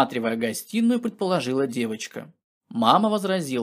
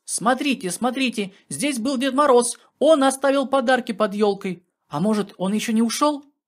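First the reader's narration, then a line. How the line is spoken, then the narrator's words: Joyful shouting. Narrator (Russian): Аленка радостно закричала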